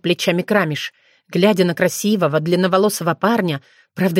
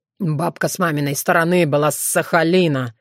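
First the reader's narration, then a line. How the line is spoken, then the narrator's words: Through gritted teeth. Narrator (Russian): Сквозь зубы процедил Уртян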